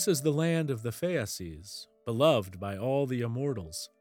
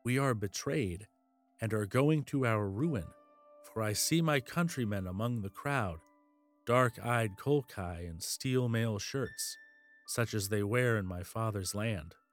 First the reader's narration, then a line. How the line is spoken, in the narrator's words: Medea trembled and whispered into Jason's ear